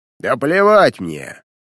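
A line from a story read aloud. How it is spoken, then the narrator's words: Bark. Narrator (Russian): рявкнул он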